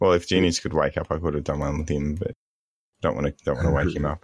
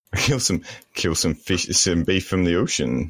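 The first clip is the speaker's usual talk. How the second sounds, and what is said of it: Put-on Indian Canadian accent. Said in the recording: “What was that accent? What was that accent? What was that supposed to be? Um, Canadian accent. ... An Indian Canadian man.”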